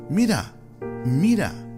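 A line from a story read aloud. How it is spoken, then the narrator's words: Rosebush shouting. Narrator (Spanish): gritó el rosal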